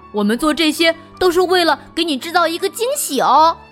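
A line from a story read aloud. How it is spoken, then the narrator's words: Laughing. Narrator (Chinese): 小兔子和小狗狗笑着说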